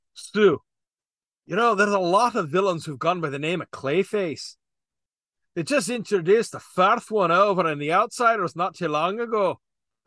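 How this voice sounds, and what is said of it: Put-on Scottish accent. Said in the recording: “So i am going Scottish. ... I don't know how Scottish he actually was, how thick his accent was, but I'm going with this.”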